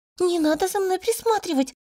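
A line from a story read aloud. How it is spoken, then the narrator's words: Pleading. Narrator (Russian): Взмолилась я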